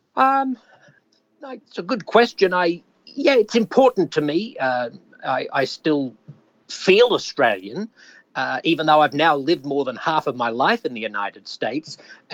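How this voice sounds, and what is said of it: Australian accent. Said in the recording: “Have you wanted to retain an Aussie accent?”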